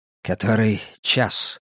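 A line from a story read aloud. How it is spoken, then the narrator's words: Quiet question. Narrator (Russian): тихо спросил Вальс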